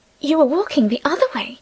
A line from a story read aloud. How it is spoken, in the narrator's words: she whispered